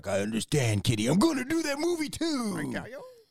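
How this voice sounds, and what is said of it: Imitates another person's voice. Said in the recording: “I do horrible impersonations ... You actually do a pretty good one.”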